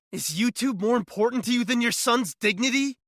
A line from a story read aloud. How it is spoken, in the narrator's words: I screamed at them